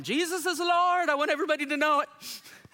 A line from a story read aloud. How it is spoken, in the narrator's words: swimming and you're yelling